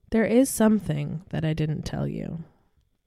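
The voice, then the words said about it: Creepy storytelling voice. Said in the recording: “creepy voice”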